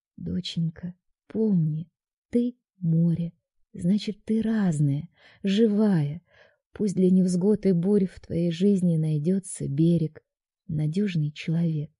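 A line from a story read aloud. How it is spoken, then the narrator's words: Tender whisper in ear. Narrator (Russian): мама нежно шептала в самое ухо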